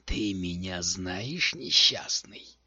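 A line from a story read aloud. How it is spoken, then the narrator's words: Hiss. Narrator (Russian): прошипел у Данкан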